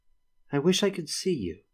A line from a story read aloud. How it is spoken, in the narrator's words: Shivania said wistfully